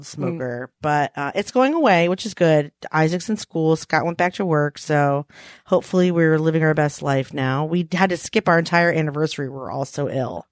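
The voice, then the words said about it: Raspy, hoarse voice. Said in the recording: “I sound like an old smoker”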